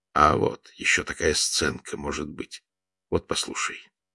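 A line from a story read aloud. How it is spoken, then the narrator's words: Low half-voiced speech. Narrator (Russian): Володя говорил вполголоса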